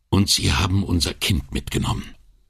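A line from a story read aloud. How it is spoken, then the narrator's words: Choked, husky voice. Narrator (German): setzte sie mit belegter Stimme hinzu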